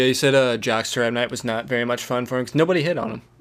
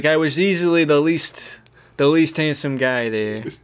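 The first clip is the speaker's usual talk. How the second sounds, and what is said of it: Imitates another person's voice. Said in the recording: “I haven't quite worked out my ... My Friedkin impression.”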